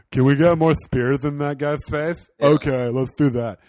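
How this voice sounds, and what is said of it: Impression of Zack Snyder. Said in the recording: “That's my impression of Zack Snyder.”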